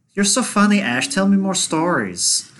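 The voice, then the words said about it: Imitates another person's hard-to-place accent. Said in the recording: “Where that accent comes from?”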